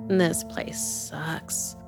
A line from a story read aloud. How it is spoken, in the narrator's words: she muttered